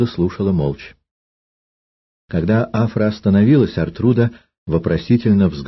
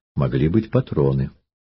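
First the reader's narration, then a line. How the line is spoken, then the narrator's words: Calm objection. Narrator (Russian): Афра спокойно возразила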